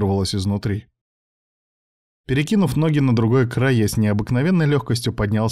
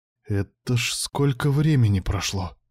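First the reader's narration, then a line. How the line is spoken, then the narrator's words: Whispered. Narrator (Russian): прошептал я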